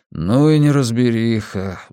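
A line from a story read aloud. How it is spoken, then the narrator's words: Sighing. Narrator (Russian): вздохнул диджей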